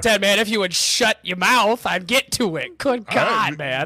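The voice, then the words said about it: Clumsy put-on Cajun accent. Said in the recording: “I sounded like I had a broken jaw and I had Down syndrome all at the same time. That's what my Cajun accent sounded like.”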